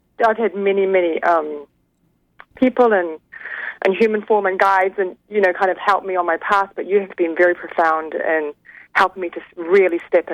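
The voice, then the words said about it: New Zealand accent. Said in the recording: “I love your accent... Originally from New Zealand... I love that you still have your accent. It's gorgeous.”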